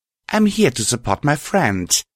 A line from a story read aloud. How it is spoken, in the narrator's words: I spat venomously